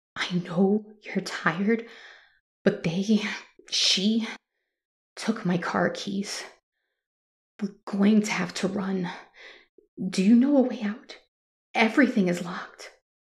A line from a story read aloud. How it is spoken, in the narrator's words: panting and exhausted, I said to Ileana